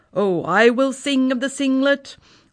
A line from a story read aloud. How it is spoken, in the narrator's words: cried our Uncle Andy